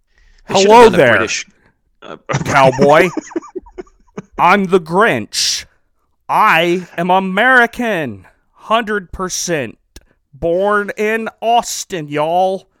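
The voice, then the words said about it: Bad American accent mimicking Benedict Cumberbatch. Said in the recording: “his American accent ... That's terrible.”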